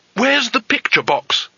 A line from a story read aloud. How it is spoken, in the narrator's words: he asked urgently